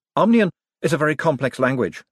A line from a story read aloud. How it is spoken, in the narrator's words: said Adora Bell quickly